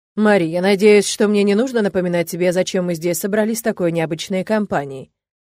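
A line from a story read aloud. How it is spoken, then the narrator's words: Cold question. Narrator (Russian): холодно спросил незнакомец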